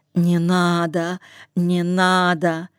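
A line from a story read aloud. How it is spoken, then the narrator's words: Panting, moaning. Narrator (Russian): Сопел, стонал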